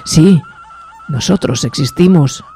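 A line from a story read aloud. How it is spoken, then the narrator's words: Whispered. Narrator (Spanish): susurró el segundo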